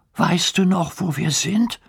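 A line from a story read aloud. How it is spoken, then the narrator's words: Anxious question. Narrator (German): fragt Hugo ängstlich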